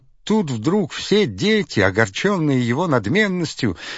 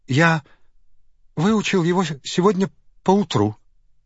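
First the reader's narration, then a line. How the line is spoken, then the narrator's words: Trembling voice. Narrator (Russian): дрожащим голосом сказал он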